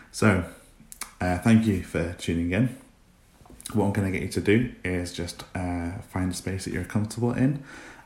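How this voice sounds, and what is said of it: Scottish accent. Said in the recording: “I've just moved down from Scotland. So I apologise if my accent is a little bit all over the place”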